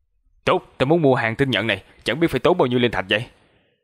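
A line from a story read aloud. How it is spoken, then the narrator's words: Loud. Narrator (Vietnamese): nam tử kia liền lớn tiếng nói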